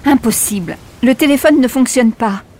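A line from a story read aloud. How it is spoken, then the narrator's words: Exclaiming. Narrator (French): s'exclame-t-elle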